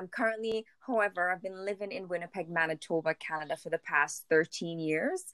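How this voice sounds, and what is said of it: Caribbean accent. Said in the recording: “I think I hear an accent in your voice ... I'm from the Caribbean, a little island in St. Vincent and the Grenadines”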